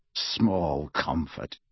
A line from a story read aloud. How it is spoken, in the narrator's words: snarled Kingsley